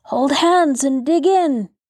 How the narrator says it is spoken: cried Edward

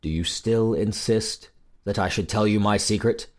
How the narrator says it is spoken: said sadly

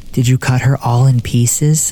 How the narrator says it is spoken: the little boy asked breathlessly

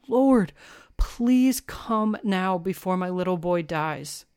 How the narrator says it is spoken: The royal official pleads with Jesus and says

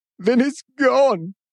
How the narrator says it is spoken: he wailed

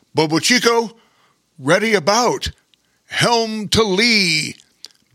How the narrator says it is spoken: bellowed Bear King

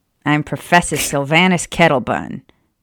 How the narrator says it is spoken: the old wizard grumbled

